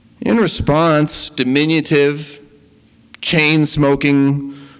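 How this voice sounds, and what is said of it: Usual voice. Nothing is said of it.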